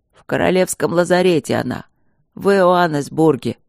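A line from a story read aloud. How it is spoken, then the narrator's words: Hoarse, doomed. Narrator (Russian): прохрипел Рыжов обреченно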